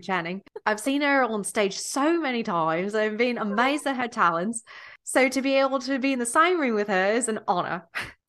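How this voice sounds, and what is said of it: Nicole Kidman impression, Australian accent. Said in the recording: “in her Australian accent ... No, that was pretty good.”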